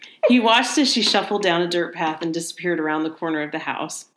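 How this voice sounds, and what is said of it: Usual voice. Nothing is said of it.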